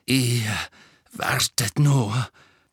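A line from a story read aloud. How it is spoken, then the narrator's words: Panting, hateful. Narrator (German): keuchte mit unverhohlenem Hass im Gesicht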